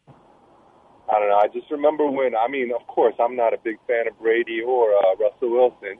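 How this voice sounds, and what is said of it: East Coast American accent. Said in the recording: “you originally from the East Coast? ... Because of the accent? ... Yeah, I could tell.”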